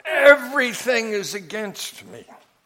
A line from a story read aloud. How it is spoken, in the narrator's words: complain very loudly